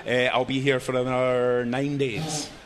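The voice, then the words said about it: Put-on foreign accent. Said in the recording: “your accent and everything ... He's actually from Brooklyn.”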